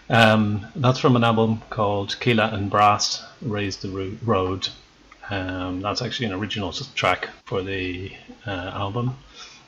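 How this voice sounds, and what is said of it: Rough, flu-affected voice. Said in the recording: “I am recovering from the flu, so my voice is a bit of a mess.”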